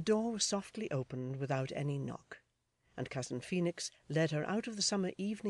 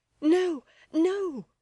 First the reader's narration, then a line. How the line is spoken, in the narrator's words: cried Florence